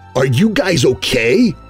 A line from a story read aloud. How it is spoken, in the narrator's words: Bucky exclaimed